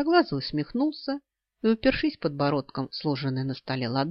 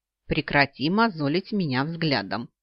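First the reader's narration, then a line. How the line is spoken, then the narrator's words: Snorting. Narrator (Russian): фыркнула я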